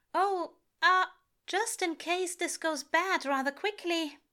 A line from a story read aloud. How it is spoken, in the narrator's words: he says nervously